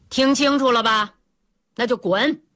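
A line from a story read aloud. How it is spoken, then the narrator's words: Loud, condescending. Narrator (Chinese): 水英妈居高临下，大声对那两个男人说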